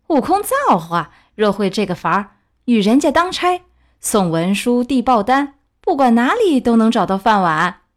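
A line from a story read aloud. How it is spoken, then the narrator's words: Group teasing laughter. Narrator (Chinese): 众师兄一个个嬉笑道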